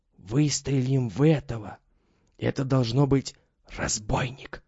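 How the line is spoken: Whisper. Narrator (Russian): шепотом проговорил Митя

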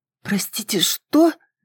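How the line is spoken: Hoarse question. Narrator (Russian): сипло спросила

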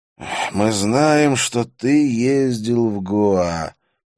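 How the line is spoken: Slow speech. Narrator (Russian): медленно произнес Вишну

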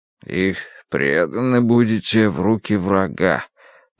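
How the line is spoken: Mutter. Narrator (Russian): пробормотал Дануорти

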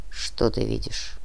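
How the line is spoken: Very quiet question. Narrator (Russian): Он задал вопрос очень тихо

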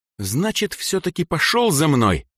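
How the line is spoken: Hiss. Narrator (Russian): прошипела Сандра

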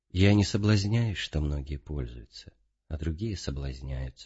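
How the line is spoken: Calm old man. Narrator (Russian): ответил спокойно старец

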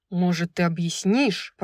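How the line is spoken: Growl. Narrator (Russian): прорычал Хант

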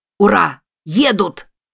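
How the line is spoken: Shout from a distance. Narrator (Russian): закричал кто-то на поляне

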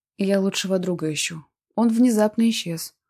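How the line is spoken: Tired voice. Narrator (Russian): ответил ей Марк утомленным голосом

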